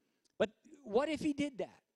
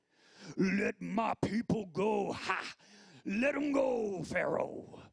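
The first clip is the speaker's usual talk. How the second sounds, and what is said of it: Poor James Earl Jones impression. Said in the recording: “he had like James Earl Jones' voice? ... That's an awful James Earl Jones impersonation.”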